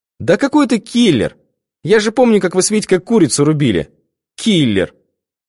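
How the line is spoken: Insulting laugh. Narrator (Russian): Она обидно засмеялась

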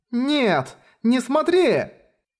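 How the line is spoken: Screaming. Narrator (Russian): Завопила Ева Коэн

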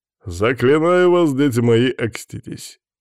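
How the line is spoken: Booming voice. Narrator (Russian): громогласным голосом встретил он нас

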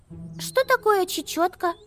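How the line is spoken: Squeaky voice. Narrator (Russian): пискнула Амелия

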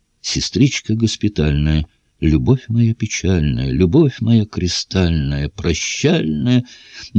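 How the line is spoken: Soft singing with guitar. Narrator (Russian): молодой подпоручик, пощипывая струны гитары, тихо напевал

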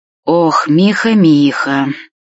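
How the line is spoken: Old man's sigh. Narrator (Russian): вздохнул дед

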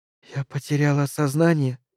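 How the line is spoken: Whisper. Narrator (Russian): прошептала Мэри

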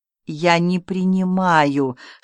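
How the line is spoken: Suffering moan. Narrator (Russian): страдальчески простонал князь Г

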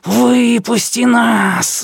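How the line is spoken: Hissing darkness. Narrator (Russian): зашипела тьма

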